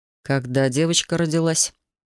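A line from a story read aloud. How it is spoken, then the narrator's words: Flat emotionless question. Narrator (Russian): Совершенно безэмоциональным тоном поинтересовался майор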